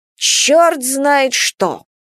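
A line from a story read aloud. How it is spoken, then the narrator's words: Displeased grumble. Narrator (Russian): Недовольно проворчал Василий Кузьмич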